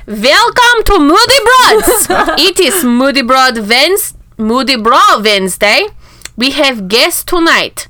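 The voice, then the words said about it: Fake German accent. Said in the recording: “a special accent ... That's an accent. ... That is accent. ... my fake German accent”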